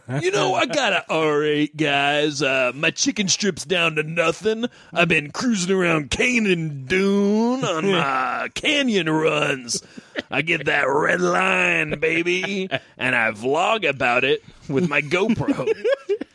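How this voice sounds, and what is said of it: Put-on cool guy voice. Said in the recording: “That's my impression of a cool person.”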